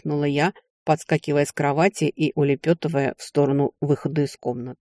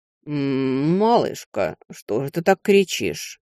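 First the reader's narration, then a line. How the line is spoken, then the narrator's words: Sleepy drawl. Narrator (Russian): Сонно протянул некромант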